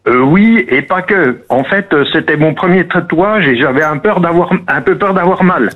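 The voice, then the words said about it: French regional Franche-Comté accent. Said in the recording (French): “l'accent magnifique ... l'accent du Jura ... L'accent doubiste ... On a un accent qui se reconnaît facilement ... légèrement”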